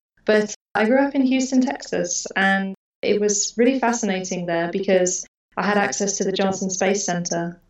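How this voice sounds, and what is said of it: Mixed British and Australian accent. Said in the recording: “my accent now, which is a mix of British and Australian”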